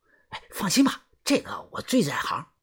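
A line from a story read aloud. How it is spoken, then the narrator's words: Quiet voice. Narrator (Chinese): 豆芽仔 小声的说道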